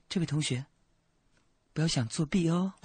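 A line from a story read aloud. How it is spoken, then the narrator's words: Very gentle. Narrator (Chinese): 说了非常温柔说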